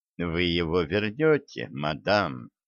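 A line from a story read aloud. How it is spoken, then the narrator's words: Soft reply. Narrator (Russian): мягко ответил Хинкль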